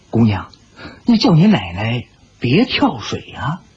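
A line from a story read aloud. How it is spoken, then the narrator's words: Hurried whisper. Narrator (Chinese): 忙低声说道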